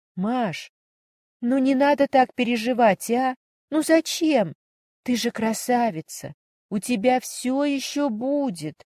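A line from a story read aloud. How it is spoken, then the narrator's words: Uncertain, consoling. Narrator (Russian): Неуверенно проговорила Варя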